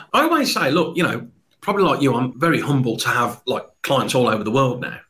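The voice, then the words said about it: Mild Birmingham (Brummie) accent. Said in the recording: “your Brummie accent ... It's a bit. It's not broad ... I think it's a trustworthy accent”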